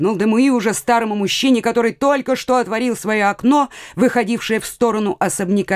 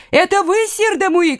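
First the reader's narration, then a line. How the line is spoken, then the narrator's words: Old man shouting. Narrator (Russian): крикнул старик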